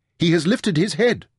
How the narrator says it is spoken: said excitedly

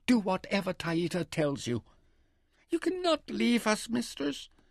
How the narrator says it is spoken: her favourite, Tinia, wailed

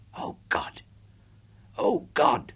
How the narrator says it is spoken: Sherry whispered beside me

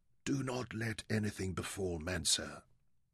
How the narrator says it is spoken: whispered

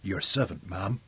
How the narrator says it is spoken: he murmured

